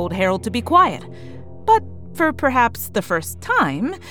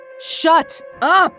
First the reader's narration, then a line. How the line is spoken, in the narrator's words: Glactyl and I shouted simultaneously